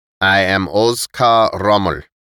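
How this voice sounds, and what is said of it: Foreign accent, S sounds like Z. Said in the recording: “His accent turned the S into a Z and emphasized the K.”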